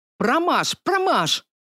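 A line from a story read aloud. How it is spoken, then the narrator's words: Shouting at husband. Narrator (Russian): кричала Кайша Тунгсвилл на своего мужа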